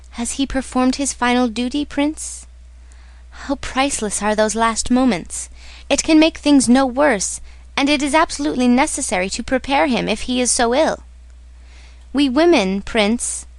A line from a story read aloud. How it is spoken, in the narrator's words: she smiled tenderly